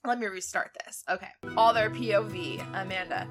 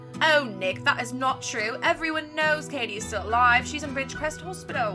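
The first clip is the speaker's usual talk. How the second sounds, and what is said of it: Put-on British accent. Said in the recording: “So I'm going to give Amanda a British accent now.”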